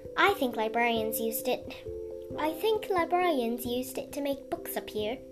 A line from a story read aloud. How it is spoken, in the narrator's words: the librarian said wistfully